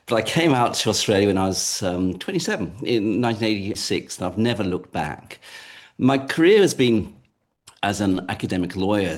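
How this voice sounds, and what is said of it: English accent. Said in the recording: “as soon as I open my mouth is I'm English by origin ... I haven't really picked up any other accent.”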